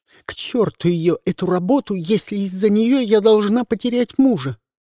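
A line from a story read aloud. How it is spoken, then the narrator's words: Shout. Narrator (Russian): выкрикнула Марьяна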